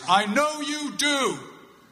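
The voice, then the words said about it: Loud, raised voice. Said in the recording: “in a loud voice,”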